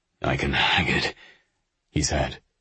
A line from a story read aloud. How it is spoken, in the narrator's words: he said, but his voice was weak